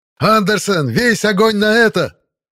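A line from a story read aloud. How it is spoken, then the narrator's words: Yelling. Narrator (Russian): заорал я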